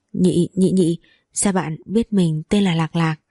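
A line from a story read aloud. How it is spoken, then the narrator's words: Flustered stammering question. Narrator (Vietnamese): mặt lập tức đỏ bừng lên lắp bắp hỏi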